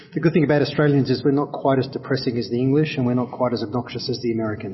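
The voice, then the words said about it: Australian accent. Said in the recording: “you're an Australian, judging by your accent.”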